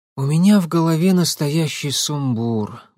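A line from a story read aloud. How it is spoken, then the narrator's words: Sighing. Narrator (Russian): вздохнула Татьяна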